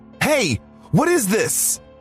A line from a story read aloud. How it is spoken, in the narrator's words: I yelled as I tried to get a response out of the masked man